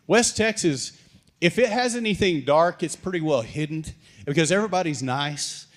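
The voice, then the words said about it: West Texas accent. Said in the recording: “straight out of West Texas... they're like, what did he say? Is he speaking English?... it took them a while to get used to my accent.”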